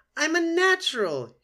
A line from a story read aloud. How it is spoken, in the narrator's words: he squeaked